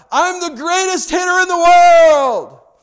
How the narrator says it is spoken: he shouted out

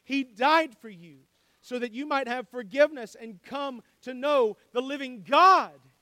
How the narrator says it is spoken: he cried

